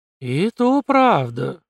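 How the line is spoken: Approving drawl. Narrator (Russian): с одобрением протянул

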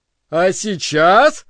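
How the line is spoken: Shouting over loud noise. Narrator (Russian): не сказал, а прокричал директор, ибо шум стоял оглушительный

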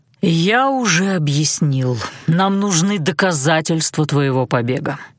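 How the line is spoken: Bored voice. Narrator (Russian): скучным голосом напомнил Александр

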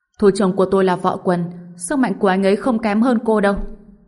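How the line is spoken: Frightened distant shout. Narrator (Vietnamese): Thần Lục Giáp sợ tới mức trốn ở phía xa, hét lên

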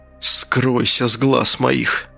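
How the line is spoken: Breathed out. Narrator (Russian): выдохнул Асад

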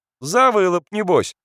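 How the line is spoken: Laughing. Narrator (Russian): засмеялся Назарка

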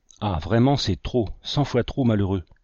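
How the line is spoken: Inconsolable murmur. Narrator (French): murmurait Brainerd, inconsolable

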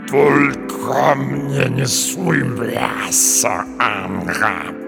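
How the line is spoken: Cheetah's purr. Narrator (Russian): промурлыкал гепард

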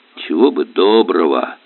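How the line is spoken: Old man grumbling. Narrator (Russian): проворчал старик

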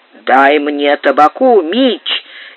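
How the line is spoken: Weak, slurred words. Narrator (Russian): еле выдавила Лу, у которой голова склонилась на бок и язык едва ворочался

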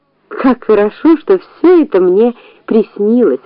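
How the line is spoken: Plain. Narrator (Russian): ответила Муми

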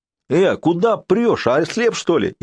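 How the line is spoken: Hysterical yelling stout woman. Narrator (Russian): истерично заорала круглолицая тетка, похожая на ожившую бочку

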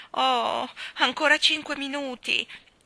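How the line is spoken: Pleading. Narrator (Italian): implorò Jane

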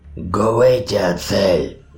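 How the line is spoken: Menacing growl. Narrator (Russian): угрожающе прорычала фигура

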